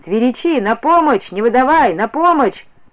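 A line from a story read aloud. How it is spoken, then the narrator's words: Thunderous shouting. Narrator (Russian): Дядько, крича громовым голосом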